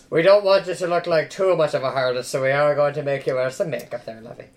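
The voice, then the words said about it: Put-on Irish accent, nun voice. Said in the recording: “we're all speaking in Irish accents ... I'm doing a Catholic or an Irish accent because that is my mom doing an impression of the nuns”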